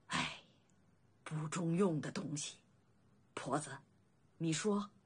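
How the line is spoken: Exasperated sigh. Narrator (Chinese): 老李正…叹气

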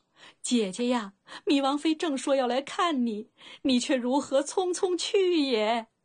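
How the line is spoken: Choked sobbing. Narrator (Chinese): 一阵哽咽窒息

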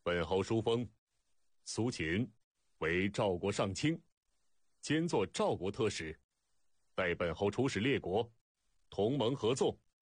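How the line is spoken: Loud. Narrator (Chinese): 赵肃侯高声道

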